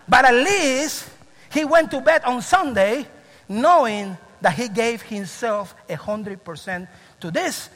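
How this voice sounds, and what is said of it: Strong accent. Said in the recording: “Especially when I get excited and passionate, my accent really goes to the roof.”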